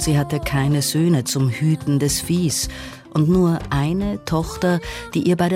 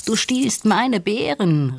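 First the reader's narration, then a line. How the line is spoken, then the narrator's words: Calling out. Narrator (German): rief Nandi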